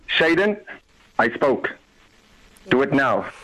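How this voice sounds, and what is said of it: Deep stern father voice. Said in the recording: “that deep down voice ... Daddy voice ... Now activate the dad voice.”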